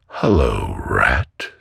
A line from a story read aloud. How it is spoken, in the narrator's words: said the mole